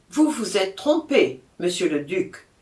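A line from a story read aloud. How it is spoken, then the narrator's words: Stern reply. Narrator (French): répondit-il d'une voix sévère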